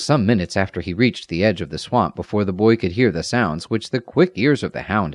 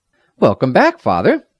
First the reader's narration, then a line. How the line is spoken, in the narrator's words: the lad cried